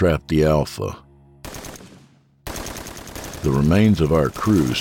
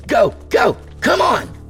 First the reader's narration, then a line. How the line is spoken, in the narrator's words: she shouted